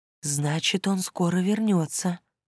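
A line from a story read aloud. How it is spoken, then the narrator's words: Soft whisper. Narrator (Russian): шепнула она тихонько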